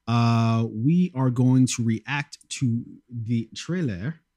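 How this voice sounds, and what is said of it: Put-on French accent. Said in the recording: “I had to say that with a French accent.”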